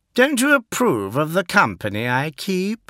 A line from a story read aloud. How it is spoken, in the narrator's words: said Fulgrim, his tone playful